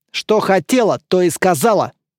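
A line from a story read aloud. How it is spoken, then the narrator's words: Stern mother's reply. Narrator (Russian): строго ответила мама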